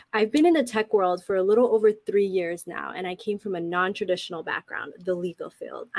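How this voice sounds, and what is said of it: Congested, stuffy voice. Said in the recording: “I have a little cold, so please, I have a cold today, so please bear with me.”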